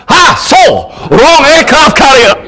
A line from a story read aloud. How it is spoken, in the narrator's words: shouting out